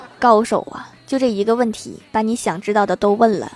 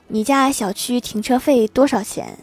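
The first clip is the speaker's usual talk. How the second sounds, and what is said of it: Very quiet, timid voice. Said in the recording (Chinese): “涨红了脸，极小声的问出了一句话”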